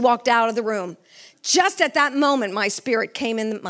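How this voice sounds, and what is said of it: Usual voice. Nothing is said of it.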